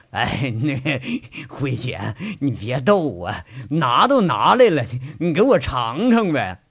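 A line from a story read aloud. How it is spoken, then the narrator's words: Wheedling pained laugh. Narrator (Chinese): 那舔着脸惨笑着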